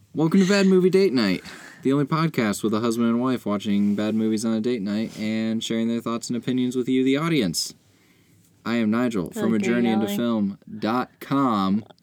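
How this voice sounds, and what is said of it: Yelling, loud announcer-style delivery. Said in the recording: “stop yelling.”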